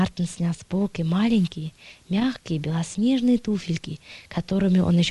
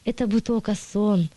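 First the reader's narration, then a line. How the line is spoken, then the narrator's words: Sighing. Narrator (Russian): вздохнул он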